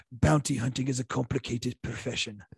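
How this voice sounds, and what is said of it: Werner Herzog impression. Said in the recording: “Great impression,... I got a good Herzog.”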